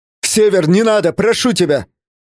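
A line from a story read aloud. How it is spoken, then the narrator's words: Shouting. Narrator (Russian): закричал я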